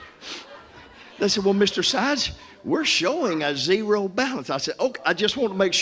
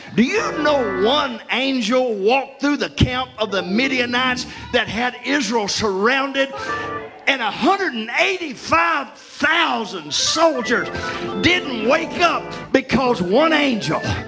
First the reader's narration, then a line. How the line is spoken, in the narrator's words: Somebody shout